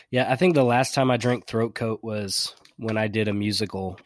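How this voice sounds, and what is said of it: Sick-sounding voice. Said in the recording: “is he still sick from the last time? And the answer is yes, a little bit ... It's your sexy voice.”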